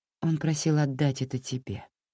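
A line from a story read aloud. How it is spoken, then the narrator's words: Soft. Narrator (Russian): мягко сказала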